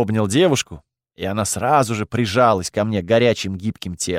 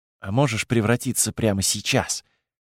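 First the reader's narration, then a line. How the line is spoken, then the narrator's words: Close, breathy whisper. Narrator (Russian): прошептала Полина, обдавая мое ухо жарким дыханием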